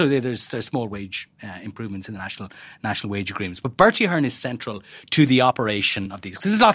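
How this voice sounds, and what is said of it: Usual voice. Nothing is said of it.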